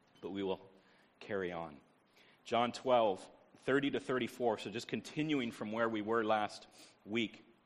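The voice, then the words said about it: Deep, hoarse, congested voice. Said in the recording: “as you can hear, maybe I got my radio voice, and it's from the cold that I'm catching”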